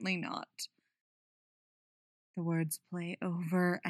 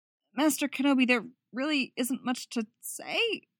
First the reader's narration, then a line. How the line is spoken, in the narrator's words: her voice cracked at the end